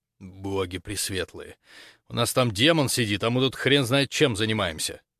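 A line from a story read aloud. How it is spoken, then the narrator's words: Dejected sigh. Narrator (Russian): сокрушенно выдохнул Хорва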